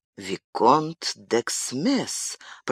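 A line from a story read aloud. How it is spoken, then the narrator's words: Whisper. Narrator (Russian): прошептал он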